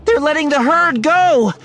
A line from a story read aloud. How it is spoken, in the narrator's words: she yelled